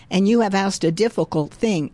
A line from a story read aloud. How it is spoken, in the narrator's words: Elijah replied